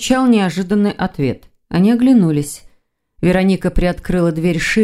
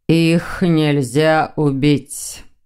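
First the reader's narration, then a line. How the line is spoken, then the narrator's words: Slow repetition. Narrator (Russian): медленно повторил хозяин дома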